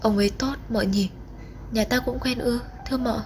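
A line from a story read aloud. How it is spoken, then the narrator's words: Tearful whisper. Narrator (Vietnamese): Nước mắt lại trào ra, người vú thì thào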